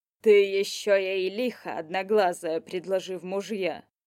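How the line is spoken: Grumbling. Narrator (Russian): проворчал Горыныч

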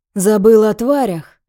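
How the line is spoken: Heavy wheezing sigh. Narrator (Russian): Алон тяжело вздыхает, воздух выходит с хрипом

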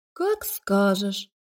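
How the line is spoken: Disappointed drawl. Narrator (Russian): разочарованно протянула Лика

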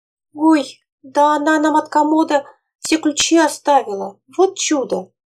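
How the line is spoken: Exclaiming. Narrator (Russian): воскликнула Феня

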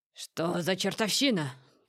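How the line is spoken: Roared. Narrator (Russian): проревел он

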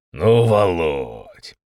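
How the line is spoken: Smiling drawl. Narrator (Russian): С улыбкой протянул Степан Викторович Державин

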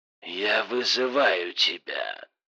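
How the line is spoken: Hoarse rasp over phone. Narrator (Russian): прохрипел телефон

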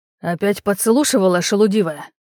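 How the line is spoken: Hissing young prince. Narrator (Russian): прошипел княжич

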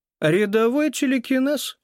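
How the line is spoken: Wry snort. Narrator (Russian): хмыкнул

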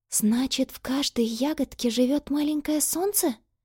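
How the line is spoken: Whisper. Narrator (Russian): прошептала она

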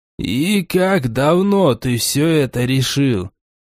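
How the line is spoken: Gloomy question after pause. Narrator (Russian): После минутной паузы мрачно спросил Гримжоу

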